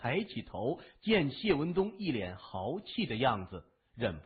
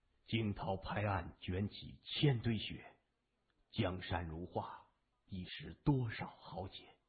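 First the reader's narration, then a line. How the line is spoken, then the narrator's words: Stirring, sighing declamation. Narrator (Chinese): 他壮言叹道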